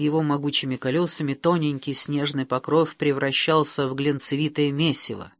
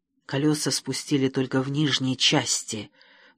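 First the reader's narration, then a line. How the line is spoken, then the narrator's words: Whispering from hiding. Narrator (Russian): прошептала Грима из своего укрытия в кустах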